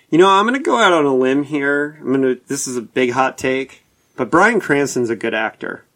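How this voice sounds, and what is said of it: Sarcastic, mock-serious delivery. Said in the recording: “I'm being sarcastic, obviously”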